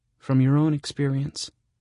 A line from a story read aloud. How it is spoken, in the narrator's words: I sigh